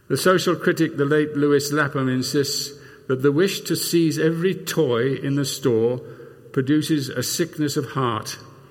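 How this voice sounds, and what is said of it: Non-American accent. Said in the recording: “in spite of my accent, I'm an American”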